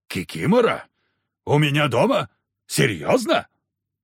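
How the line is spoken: Harsh bark. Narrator (Russian): рявкнуло

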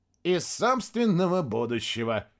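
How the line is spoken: Giggling. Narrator (Russian): хихикнул Костя

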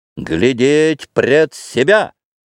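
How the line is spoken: Wild scream. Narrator (Russian): диким голосом закричал Петр

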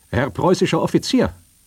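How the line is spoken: Calling out. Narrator (German): rief

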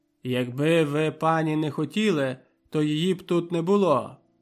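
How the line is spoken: Angry reply. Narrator (Ukrainian): відповів Славко сердито

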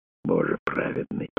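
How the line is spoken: Whispered. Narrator (Russian): прошептал он

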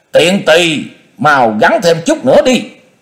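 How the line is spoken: Impatient hurried shout. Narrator (Vietnamese): Người ở phía bên trên có vẻ nóng lòng sốt ruột, vội quát bảo

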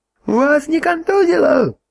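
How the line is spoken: Yelling right into ear. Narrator (Russian): заорал наблюдатель прямо в ухо

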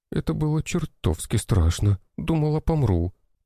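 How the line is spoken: Girl moaning. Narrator (Russian): простонала девушка

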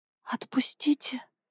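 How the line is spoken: Desperate whisper. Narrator (Russian): прошептала она в отчаянии

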